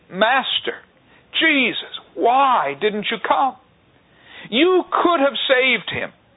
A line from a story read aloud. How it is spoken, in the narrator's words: Mary is in tears, pleading with Him